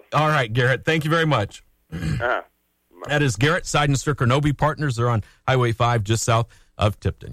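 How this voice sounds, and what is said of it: Strained, hoarse voice. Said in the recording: “I'm doing trying to keep my voice going here. I got a little choked up this morning. Allergies or something.”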